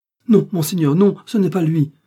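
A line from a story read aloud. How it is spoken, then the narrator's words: Exclaimed. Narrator (French): s'écria Bonacieux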